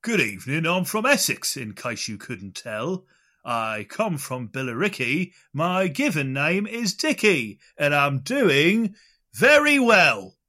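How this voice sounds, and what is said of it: Fake Essex accent. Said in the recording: “The fake Essex accent”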